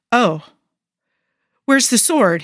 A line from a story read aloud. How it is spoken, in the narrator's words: blurts, without really thinking about it